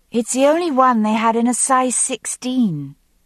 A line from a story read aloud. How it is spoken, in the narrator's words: she answered calmly